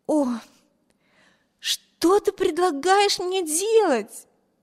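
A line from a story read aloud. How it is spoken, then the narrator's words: Exclaimed. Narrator (Russian): воскликнула она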